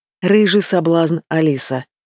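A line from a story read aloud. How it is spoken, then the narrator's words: Hoarse whisper. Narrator (Russian): Доносится хриплый шепот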